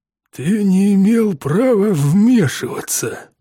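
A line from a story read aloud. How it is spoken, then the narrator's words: Through gritted teeth. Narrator (Russian): сквозь зубы процедил мистер Питерсон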